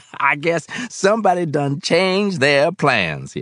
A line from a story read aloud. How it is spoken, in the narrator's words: added with a laugh